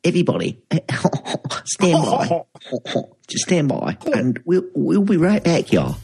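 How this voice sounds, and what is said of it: Put-on posh voice. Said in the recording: “in a really posh voice”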